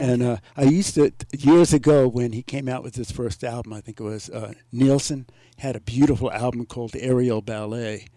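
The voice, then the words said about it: New York accent. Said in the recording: “I'm sure they can tell your accent. You're not from here ... you're from New York”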